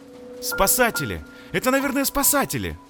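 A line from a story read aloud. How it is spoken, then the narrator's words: Joyful overlapping shouts. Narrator (Russian): кричали они радостно наперебой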